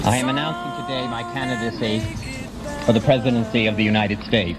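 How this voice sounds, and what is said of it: Boston accent. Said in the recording (French): “Ce timbre de voix, cet accent de Boston”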